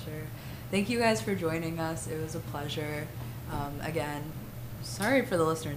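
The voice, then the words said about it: Hoarse, nearly lost voice. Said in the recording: “My voice is gone.”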